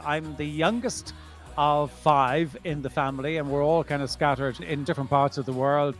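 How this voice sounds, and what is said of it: Irish Dublin accent. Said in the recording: “I'm from Ireland ... the accent as well probably gives that away. So, yes, born and bred in Dublin.”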